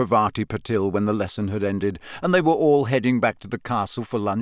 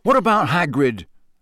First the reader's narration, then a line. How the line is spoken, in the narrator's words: Harry said angrily